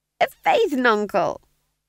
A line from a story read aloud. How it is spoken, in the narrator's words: squeaked